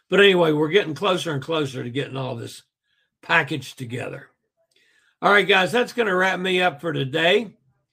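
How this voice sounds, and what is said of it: Slightly gruff, hoarse voice. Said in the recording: “My voice is starting to give out again, which is, you know, doing better, but you can still hear a little gruffness in my voice.”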